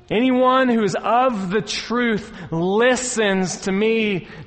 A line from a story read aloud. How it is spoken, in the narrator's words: Jesus said